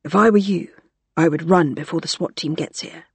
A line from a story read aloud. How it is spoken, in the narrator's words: she whispered